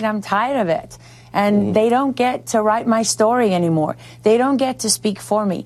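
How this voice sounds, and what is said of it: South African accent. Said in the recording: “The accent, if you're curious, she was born in South Africa”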